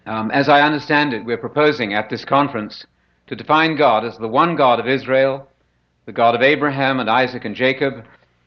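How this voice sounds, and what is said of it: British English accent with American tinge. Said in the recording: “this is British English, somewhat tainted by my 22 years of residence in the great United States ... you sound like a Yank”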